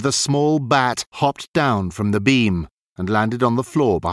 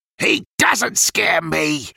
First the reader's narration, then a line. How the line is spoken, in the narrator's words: shouted Daniel